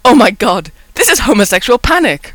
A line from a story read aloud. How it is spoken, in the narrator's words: Rodney yelled, in between snorts of laughter